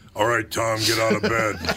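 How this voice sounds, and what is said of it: Imitates another person's voice. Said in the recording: “is a really good impression of my mother ... She had the pipes on her, man.”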